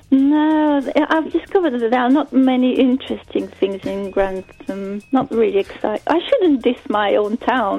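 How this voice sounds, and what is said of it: Slight foreign accent. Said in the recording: “I'm guessing from your name and your accent that you're not from Grantham... A little bit you do, yes.”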